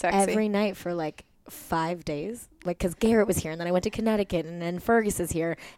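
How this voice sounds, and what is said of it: Worn-out voice from late nights. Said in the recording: “I've been up for like until like at least 3 a.m. Like you can hear it in my party voice.”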